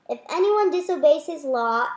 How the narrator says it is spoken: added excitedly

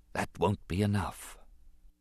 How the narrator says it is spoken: His voice was small and went unheard as he whispered to himself

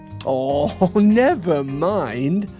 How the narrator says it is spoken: laughed Little Miss Fun

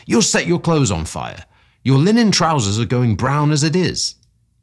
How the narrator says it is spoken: I cried

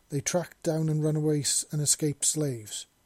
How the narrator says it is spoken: the man said, his voice pausing

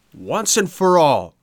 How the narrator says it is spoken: shouted Pinocchio in a rage

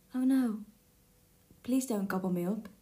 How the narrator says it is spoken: said the youngest billy goat Gruff in a tiny voice

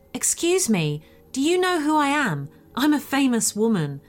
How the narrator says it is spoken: Anna snaps towards her with this crazy look in her eyes and shouts

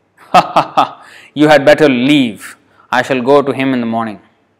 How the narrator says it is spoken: The demon laughed loudly and said

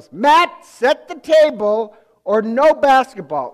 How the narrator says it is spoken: she yells

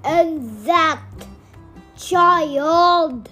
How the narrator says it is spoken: shouted Power

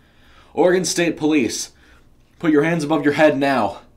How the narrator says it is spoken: he shouted

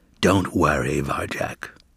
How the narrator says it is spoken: he whispered so no one else could hear

